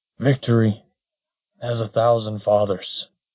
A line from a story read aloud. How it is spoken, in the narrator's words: sputtered through a fountain of blood